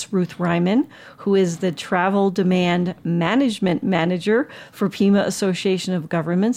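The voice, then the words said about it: Words spoken slowly and deliberately. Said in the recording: “I say it slowly”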